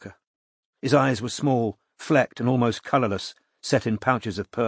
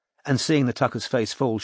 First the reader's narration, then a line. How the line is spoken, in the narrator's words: she added quickly